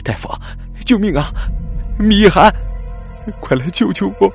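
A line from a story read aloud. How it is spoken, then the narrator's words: Wailing, sobbing. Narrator (Chinese): 他嚎啕大哭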